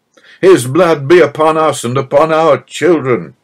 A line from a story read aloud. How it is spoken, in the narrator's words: cried the triumphant Jews